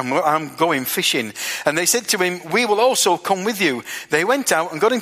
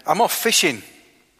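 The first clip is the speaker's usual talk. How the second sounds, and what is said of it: Barnsley accent. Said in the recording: “that was a Barnsley accent”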